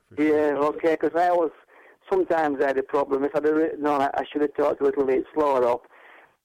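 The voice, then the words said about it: Yorkshire English accent. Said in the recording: “I hope people can understand my accent ... Yorkshire people”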